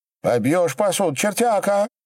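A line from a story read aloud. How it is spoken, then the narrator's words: Shouted. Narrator (Russian): закричала Матрена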